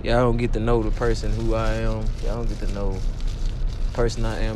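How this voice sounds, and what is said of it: Strong regional accent. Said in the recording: “my voice might get annoying sometimes... You might can't understand my accent.”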